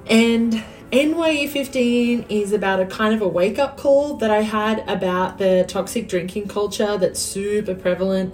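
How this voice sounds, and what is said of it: Australian accent. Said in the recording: “you can probably tell because I haven't acquired a drawl after living in Texas for 8 years that I'm originally from Australia”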